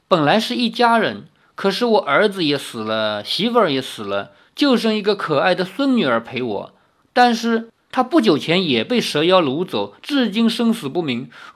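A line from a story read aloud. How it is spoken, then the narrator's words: Sighing old man. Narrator (Chinese): 老汉叹道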